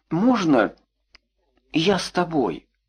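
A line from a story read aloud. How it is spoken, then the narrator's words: Very quiet, head down. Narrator (Russian): сказал очень тихо, не поднимая головы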